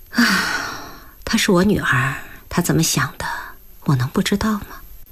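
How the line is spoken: Sighing. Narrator (Chinese): 许孟安说着，叹了口气

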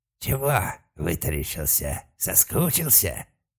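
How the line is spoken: Hissing. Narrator (Russian): не проскрипело, а прошипел уродец

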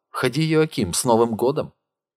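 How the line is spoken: Joyful. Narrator (Russian): Узнав Йоакима, она радостно сказала

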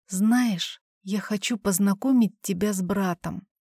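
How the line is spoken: Barely audible whisper. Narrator (Russian): прошептала еле слышно

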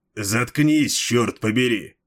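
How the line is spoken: Growl. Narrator (Russian): прорычал Малхион

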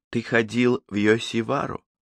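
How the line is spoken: Pleasant questioning tone. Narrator (Russian): спросила она тем же приятным тоном

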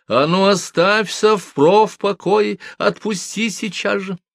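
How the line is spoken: Woman shouting. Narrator (Russian): толстая негритянка закричала

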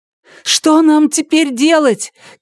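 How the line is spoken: Shouted into ear. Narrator (Russian): крикнула Карсис в ухо Луну

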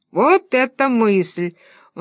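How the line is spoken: Laughing. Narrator (Russian): он засмеялся

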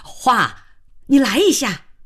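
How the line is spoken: Loud call. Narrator (Chinese): 慧娟高叫了一声

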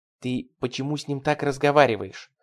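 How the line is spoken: Hissed. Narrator (Russian): прошипела Джейми

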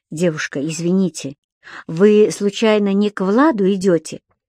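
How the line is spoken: Awkward, forced out. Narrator (Russian): Почему-то очень неловко себя чувствуя, выдавил Саша

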